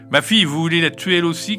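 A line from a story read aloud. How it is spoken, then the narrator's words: Shouted. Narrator (French): cria Gilda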